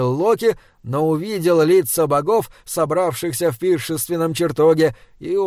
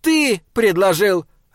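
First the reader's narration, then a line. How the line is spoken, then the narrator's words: Sharp bark. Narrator (Russian): рявкнула Фрея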